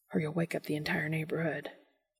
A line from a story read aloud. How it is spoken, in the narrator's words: Dean whispers